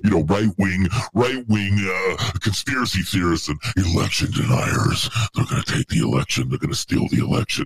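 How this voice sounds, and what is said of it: Imitates another person's voice. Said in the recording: “That's my impression of Hillary. It's the best I can do... it's pretty on point, honestly”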